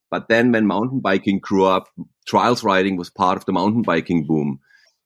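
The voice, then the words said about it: German accent in English. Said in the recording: “I have a German tongue, what they say, like a German accent”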